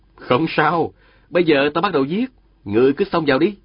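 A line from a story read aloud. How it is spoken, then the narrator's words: Smiling. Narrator (Vietnamese): Diên Thừa Chí mỉm cười, nói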